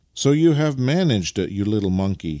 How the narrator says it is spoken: he exclaimed

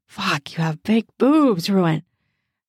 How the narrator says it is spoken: she gasps

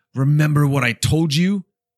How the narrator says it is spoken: Jansen growls at her in response

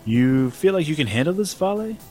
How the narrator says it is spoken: said Abigail

